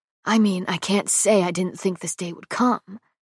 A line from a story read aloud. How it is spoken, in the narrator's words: adds with an amused whisper